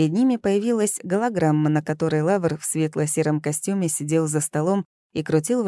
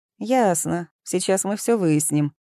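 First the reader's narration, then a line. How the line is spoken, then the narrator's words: Dry. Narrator (Russian): сухо произнес ловец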